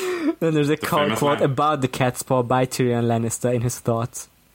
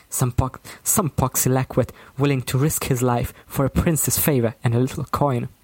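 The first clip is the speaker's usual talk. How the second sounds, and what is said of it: Serious, accurate imitation of a character. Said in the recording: “That was my Tyrion impression. ... It was very good. ... serious accurate.”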